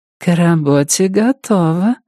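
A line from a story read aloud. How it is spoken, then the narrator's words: Cooing softly into ear. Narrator (Russian): проворковала красотка ему в ухо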